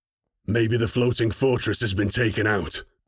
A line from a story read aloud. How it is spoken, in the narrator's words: Kronig replied, his customary growl in place